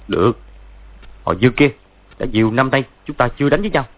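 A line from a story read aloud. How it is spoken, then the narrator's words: Harsh, gritted voice. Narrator (Vietnamese): Võ Tu Văn nhảy lui hai bước gằn giọng nói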